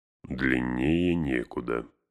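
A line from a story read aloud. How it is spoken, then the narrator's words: Grumbling. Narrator (Russian): проворчал Гэндальф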